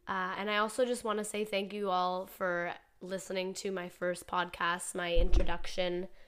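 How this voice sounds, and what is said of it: Congested voice. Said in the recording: “my voice sounds different, it's because I've been sick for the last week... other than just some congestion”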